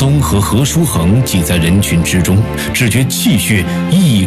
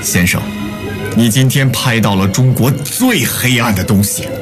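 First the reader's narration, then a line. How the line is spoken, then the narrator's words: Through gritted teeth, furious. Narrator (Chinese): 毛泽东咬牙切齿说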